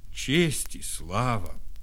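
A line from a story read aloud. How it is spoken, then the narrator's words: Sighing. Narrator (Russian): вздохнул Кость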